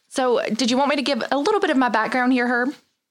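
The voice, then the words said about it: Slight regional accent. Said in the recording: “I have a little bit of an accent. ... I can tell.”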